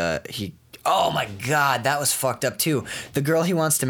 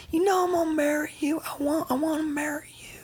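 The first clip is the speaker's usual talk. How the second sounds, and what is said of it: High-pitched imitation of another person's voice. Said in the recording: “Casey Affleck has a really high voice”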